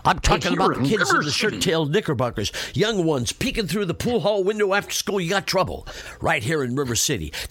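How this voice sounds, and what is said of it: Imitates another person's voice. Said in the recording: “That was my impression of one of the best song and dance men who ever lived”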